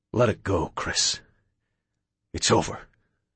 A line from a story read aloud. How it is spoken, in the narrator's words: Sho replied tenderly